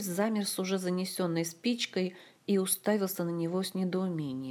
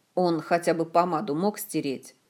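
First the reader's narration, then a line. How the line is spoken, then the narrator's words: Carefree grumble. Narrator (Russian): Уже беззаботно проворчал Шеллар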